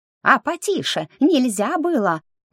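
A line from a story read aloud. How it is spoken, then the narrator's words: Indignant squeak. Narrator (Russian): возмущенно пропищал старшенький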